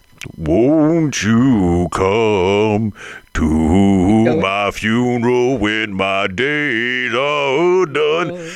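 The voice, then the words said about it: Sung imitation of a band's singer. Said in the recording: “that's not a bad impression. ... That's like so good.”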